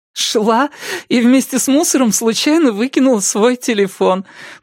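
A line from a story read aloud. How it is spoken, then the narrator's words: Laughing explanation. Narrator (Russian): пояснила Робин, смеясь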